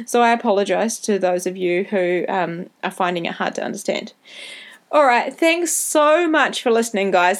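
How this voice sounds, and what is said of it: New Zealand accent. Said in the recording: “my Kiwi accent can be a bit hard to understand when I talk too fast”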